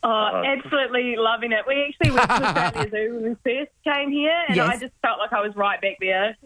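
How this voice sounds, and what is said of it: Slight New Zealand accent. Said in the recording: “I detected a little bit of an accent that you are in fact Kiwis.”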